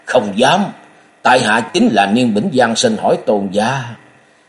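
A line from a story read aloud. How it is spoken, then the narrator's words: Laughing loudly. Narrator (Vietnamese): Niên Bỉnh Văn cười lớn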